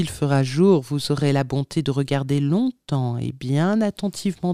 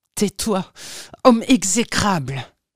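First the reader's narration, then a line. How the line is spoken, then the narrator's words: Exclaimed. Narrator (French): s'écria Erasme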